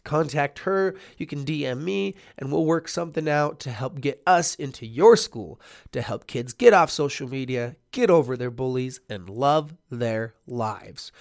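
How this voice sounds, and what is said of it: Sick, congested-sounding voice. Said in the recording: “I have a cold”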